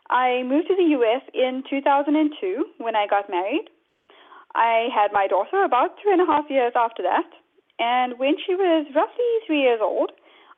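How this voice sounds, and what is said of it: South African accent. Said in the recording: “I'm originally from South Africa, as you may be able to tell from the accent.”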